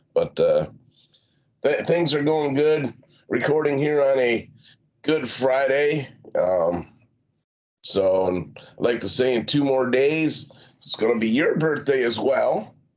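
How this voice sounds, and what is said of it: Rough, cracking voice. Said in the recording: “Recovering from last night, man. You can probably hear it in my voice. I don't necessarily sound the same. A little rough ... listen to me. I sound like I'm hitting puberty here.”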